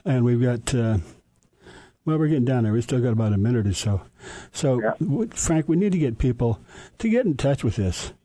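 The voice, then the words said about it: Tired, strained voice giving out. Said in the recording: “my voice is running out”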